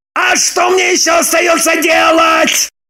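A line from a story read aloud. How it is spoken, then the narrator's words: Louder wailing. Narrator (Russian): Пуще прежнего завопил Роман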